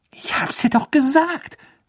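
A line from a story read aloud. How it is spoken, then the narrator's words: Hissing. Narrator (German): zischte Ron Hermine zu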